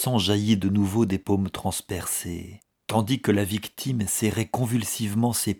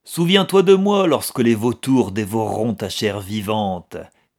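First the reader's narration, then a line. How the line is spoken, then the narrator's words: Mocking shout. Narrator (French): cria-t-il d'un ton moqueur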